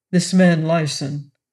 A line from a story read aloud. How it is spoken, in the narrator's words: Blunt asked coldly